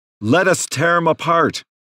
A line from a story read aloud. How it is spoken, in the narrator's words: shouted a woman from the back of the courtroom